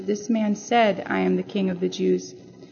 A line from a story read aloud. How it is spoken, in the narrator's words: Pilate, already angry with himself, replied coldly